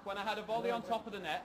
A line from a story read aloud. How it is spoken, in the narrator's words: he shouts